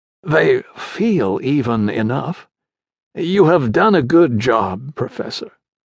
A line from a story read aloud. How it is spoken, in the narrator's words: came the croaked reply